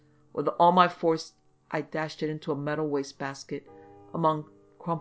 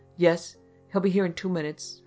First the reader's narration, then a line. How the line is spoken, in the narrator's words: her voice quavered